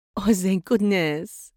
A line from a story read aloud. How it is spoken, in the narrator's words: the princess giggled